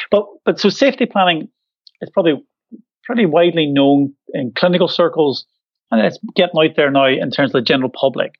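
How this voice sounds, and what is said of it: Northern Irish Glaswegian accent. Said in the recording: “Irish Glaswegian accent, because I'm from Northern Ireland originally, but I've lived in Scotland for 20 years”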